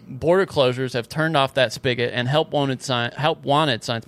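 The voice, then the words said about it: Slight Southern American accent. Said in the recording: “my southern accent creeped in there”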